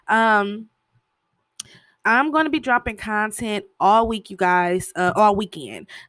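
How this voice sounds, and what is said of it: Scratchy, slightly off voice. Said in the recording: “my voice sounds a little weird, a little scratchy... My allergies and sinuses has been acting up all week... I sound a little off”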